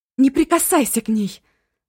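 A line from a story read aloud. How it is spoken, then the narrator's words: Screaming. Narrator (Russian): завопила и Эва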